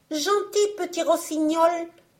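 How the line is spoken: Little girl crying loudly. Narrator (French): cria à haute voix la petite laveuse de vaisselle

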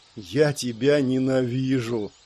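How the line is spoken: Moan. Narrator (Russian): простонал Элмерик

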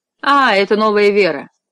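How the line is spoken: Laughing. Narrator (Russian): засмеялся Фламбо

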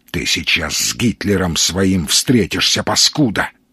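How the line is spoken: Hiss. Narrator (Russian): прошипел

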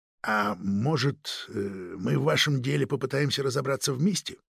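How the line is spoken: Very quiet, confidential. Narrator (Russian): Тихо, чтобы его никто, кроме инспектора, не смог услышать, проговорил фон Шпинне

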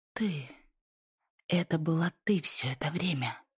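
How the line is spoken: Whisper. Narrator (Russian): прошептала Лайза

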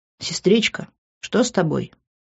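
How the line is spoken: Quiet question. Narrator (Russian): тихо спросил брат

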